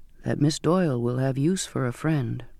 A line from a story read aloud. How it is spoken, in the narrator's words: he said softly